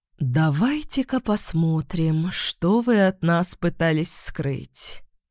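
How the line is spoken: Drawling voice. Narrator (Russian): протянула третья сестра

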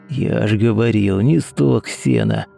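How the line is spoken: Hissing. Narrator (Russian): прошипел рядом Ефим

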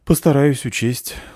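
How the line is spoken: Sighing. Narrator (Russian): вздохнула девушка

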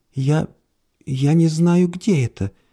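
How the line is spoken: Timid. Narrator (Russian): робко ответила женщина

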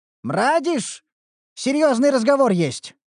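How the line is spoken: Impatient call. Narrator (Russian): окрикнул его Динклер нетерпеливо

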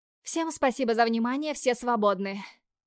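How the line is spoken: Loud. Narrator (Russian): Говорю громко

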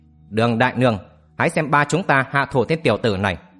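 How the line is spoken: Cold. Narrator (Vietnamese): Vạn Lý Hồng lạnh lùng nói

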